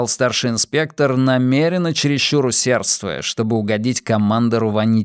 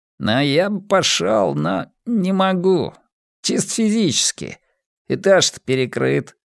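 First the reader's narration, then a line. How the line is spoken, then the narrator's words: Stammering, guilty mumble. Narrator (Russian): промямлил детектив с крысиным лицом, запинаясь, будто нашкодивший школьник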